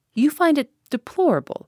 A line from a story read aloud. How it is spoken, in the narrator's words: asked Giraud